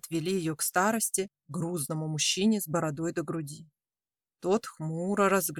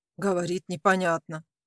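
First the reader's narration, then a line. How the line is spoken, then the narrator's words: Young man's curt mutter. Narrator (Russian): буркнул второй молодой парень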